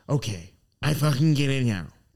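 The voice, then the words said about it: Imitates another person's voice. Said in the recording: “you kill it on the Kyle impersonations, by the way. You nailed that.”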